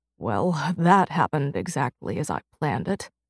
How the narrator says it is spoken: he muttered

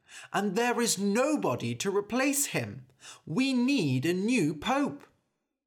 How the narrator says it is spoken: cried a man

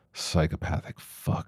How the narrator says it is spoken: Luke muttered into the wind

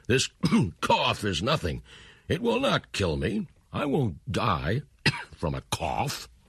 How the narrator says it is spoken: he cried

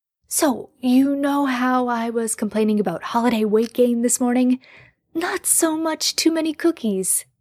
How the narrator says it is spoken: Jared had gasped

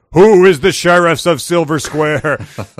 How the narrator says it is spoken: The Cyclops bellowed

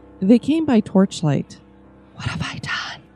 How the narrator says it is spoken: asked in a whisper

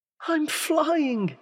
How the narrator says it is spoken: he cried in delight

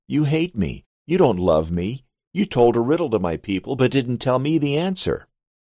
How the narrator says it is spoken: Samson's wife cried on his shoulder and said

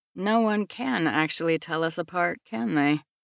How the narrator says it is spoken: I sigh

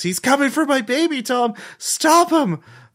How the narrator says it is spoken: they're just screaming

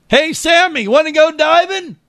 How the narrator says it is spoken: Did you yell out

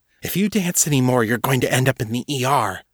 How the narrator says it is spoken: John hissed in her ear

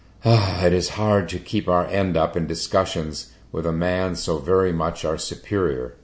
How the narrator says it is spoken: one of them exclaimed with a sigh

